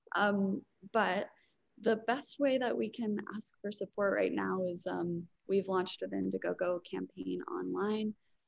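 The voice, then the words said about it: Hoarse, strained voice. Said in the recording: “I'm kind of losing my voice because it's been such a crazy week here”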